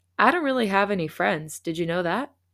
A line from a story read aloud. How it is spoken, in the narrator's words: he asked